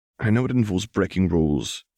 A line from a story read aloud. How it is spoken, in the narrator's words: sighed Neville